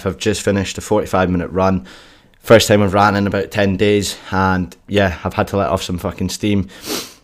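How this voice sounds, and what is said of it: Out of breath speaking. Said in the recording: “if you can hear, I'm still out of breath.”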